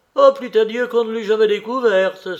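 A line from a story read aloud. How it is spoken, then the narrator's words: Exclaimed. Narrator (French): s'exclama-t-elle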